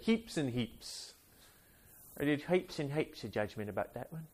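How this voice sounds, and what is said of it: Bad put-on Australian accent. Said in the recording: “that was like an Aussie guy traveling the African Sahara in a South African van ... bad accent”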